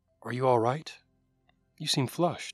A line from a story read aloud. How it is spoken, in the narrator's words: You softly ask